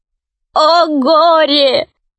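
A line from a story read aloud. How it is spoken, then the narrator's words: Dwarf sobbing. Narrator (Russian): рыдал гном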